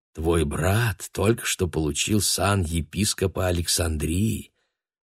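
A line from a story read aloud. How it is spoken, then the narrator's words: Devil's honeyed whisper in ear. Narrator (Russian): дьявол медовым голосом шепнул ему на ухо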